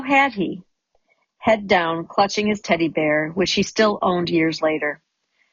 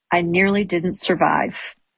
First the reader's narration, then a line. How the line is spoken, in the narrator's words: murmuring ominously